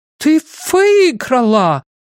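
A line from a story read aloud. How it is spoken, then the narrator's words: Excited exclamation, Swedish accent. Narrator (Russian): воскликнула Герда, которой от волнения вернулся шведский акцент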